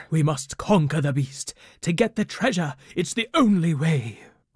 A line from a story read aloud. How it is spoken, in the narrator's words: cried Captain Brock